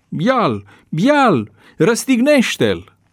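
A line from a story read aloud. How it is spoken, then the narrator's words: Crowd shouting. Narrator (Romanian): ei au strigat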